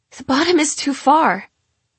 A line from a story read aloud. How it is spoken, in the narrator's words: Lata says as she gasps for breath